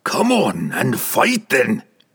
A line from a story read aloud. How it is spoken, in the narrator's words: he roared